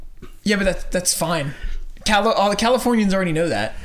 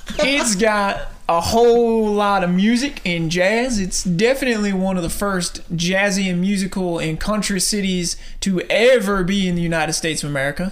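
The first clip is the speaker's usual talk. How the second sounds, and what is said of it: Poor put-on Southern US accent. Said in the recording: “I'm done doing that accent. I tried. ... I apologize to anyone from the South that is currently listening to that. That was probably awful.”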